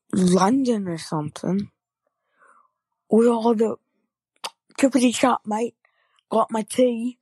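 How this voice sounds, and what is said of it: Put-on English accent. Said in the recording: “do an English accent”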